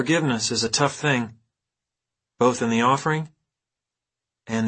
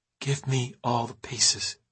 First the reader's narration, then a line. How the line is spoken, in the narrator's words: she whispered